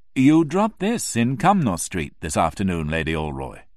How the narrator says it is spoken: I said very calmly

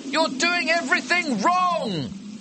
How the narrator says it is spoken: shout

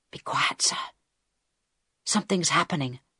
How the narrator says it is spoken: Harold whispered back

